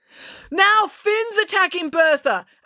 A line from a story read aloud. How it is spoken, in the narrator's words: Animus yelled over the ruckus